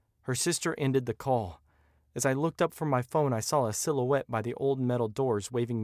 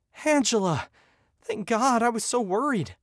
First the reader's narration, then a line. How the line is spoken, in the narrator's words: I gasped for breath